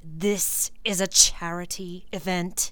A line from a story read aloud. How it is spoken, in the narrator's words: he snarled